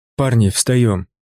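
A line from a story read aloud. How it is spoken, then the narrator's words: Sharp. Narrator (Russian): Мой голос прозвучал резко в тишине вагона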